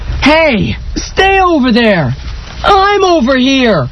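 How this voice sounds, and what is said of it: Yelling loudly. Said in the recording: “Stop yelling like that. You can't just stand in the driveway yelling.”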